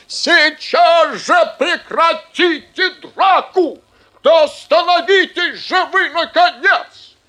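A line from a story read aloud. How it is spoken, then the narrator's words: Shouting. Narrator (Russian): Директор закричал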